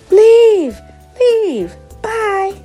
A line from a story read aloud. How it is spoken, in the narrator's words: Some can be heard screaming